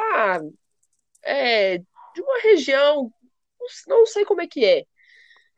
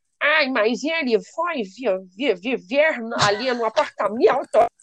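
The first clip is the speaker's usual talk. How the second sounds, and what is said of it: Put-on Brazilian rural caipira accent. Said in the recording (Portuguese): “Tem um sotaque caipira, né? ... eu adoro ficar imitando esse pessoal. Eles fazem uma voz caipira”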